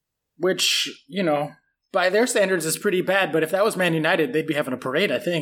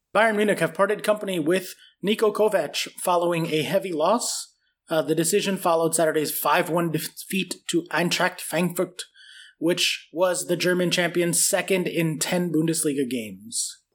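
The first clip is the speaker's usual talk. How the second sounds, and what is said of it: Weak put-on German accent. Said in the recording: “your attempt at a German accent? ... Needs work.”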